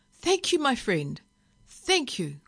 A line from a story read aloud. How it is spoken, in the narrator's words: cried Billy Caster